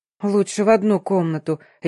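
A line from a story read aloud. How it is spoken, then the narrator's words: Blurted out decisively. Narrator (Russian): решительно выпалила я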